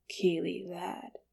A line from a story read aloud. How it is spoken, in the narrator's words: he said quietly